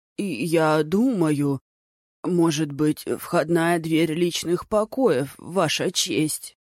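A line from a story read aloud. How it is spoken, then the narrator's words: Trembling, faltering voice. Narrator (Russian): дрожащим голосом пролепетал Тан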